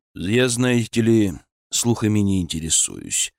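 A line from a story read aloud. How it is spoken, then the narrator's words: Calm. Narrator (Russian): спокойно ответил Удашев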